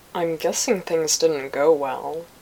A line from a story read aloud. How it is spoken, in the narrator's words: Anakin said in a muffled voice